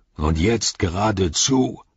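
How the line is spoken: Bellowing. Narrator (German): brüllte Ugluk

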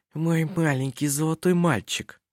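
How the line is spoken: Passionate whisper. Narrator (Russian): принялась жарко шептать на ухо

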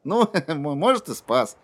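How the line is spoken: Laughing. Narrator (Russian): Кадберт рассмеялся

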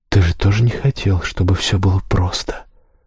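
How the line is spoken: Whispered. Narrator (Russian): прошептала

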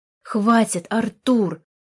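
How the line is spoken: Sharp shout. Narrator (Russian): прикрикнула уже Ника

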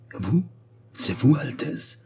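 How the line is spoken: Stammering. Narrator (French): balbutia-t-il

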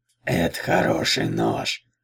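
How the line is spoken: Regretful hiss. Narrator (Russian): прошипел с сожалением

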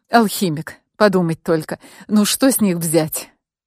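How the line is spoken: Resigned groan. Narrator (Russian): обреченно простонала она

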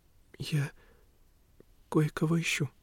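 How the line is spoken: Quiet. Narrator (Russian): тихо проговорила Лени

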